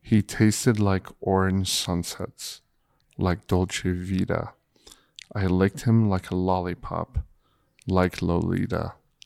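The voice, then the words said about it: Sultry, seductive reading voice. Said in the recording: “With his sexy voice that all chicks love.”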